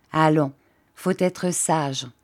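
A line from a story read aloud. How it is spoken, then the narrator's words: Plain. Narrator (French): dit-elle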